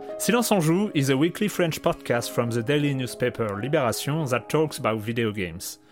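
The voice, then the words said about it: Heavily accented non-native English. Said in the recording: “our catastrophic English accent”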